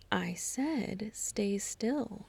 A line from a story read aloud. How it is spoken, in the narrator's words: practically purred